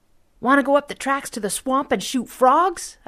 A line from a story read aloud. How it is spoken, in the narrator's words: I shouted